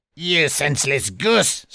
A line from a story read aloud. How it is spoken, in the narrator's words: snarled the dwarf